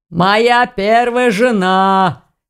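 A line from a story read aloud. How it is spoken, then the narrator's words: Hoarse laugh. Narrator (Russian): хрипло хохотнул мужчина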